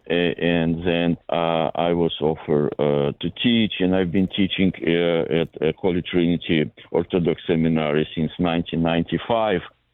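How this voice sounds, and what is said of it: Eastern European accent. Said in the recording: “my accent comes from Eastern Europe, to be more precise, from the former Soviet Union”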